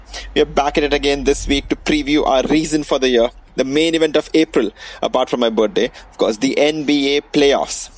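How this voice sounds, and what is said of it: Indian accent. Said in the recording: “your favorite NBA podcast in an Indian accent.”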